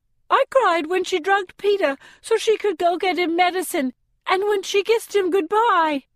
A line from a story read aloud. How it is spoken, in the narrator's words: blurts out Octavia